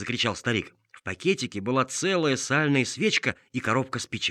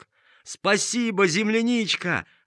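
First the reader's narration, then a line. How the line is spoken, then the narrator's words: Shouting in chorus. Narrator (Russian): закричали все хором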